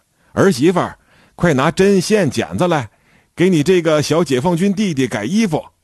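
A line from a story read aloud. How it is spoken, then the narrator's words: Calling to another room. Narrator (Chinese): 大娘朝里屋喊了一声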